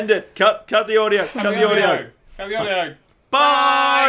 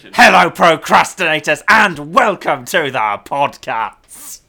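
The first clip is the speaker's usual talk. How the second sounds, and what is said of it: Imitates another person's voice. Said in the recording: “your Dan impression ... I don't know how you managed to sound like an American doing an impression of an Icelandic person doing an impression of me, but that was fucking good.”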